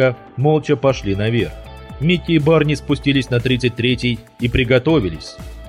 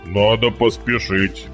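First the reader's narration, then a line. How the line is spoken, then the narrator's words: Deep bass voice. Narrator (Russian): пробасил Барни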